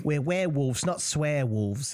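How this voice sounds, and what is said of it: Put-on New Zealand accent. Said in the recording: “That is the best British accent I've ever heard you do ... No, that was New Zealand.”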